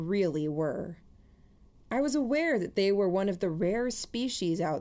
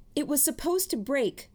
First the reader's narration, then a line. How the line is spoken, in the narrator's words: Mary called out